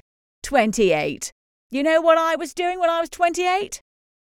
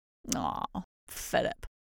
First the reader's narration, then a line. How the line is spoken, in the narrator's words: mutters pensively, with nostalgia